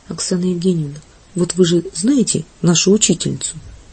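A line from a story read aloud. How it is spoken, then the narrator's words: Quiet speech. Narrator (Russian): тихо говорит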